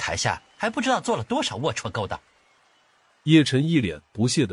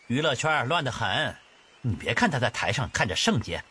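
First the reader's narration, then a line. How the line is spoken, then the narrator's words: Cold. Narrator (Chinese): 姬秋芷冷冷说道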